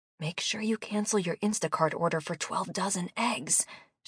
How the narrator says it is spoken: she whispered loudly

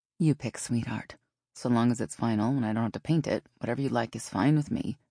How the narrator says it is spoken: Dale had said

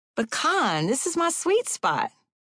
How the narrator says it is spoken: pleaded

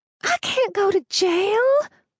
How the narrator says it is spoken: Reed wailed

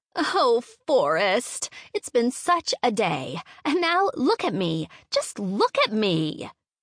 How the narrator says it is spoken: she whined

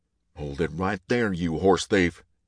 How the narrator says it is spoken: Hunter bellowed

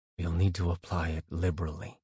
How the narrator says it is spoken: Azrael said tightly

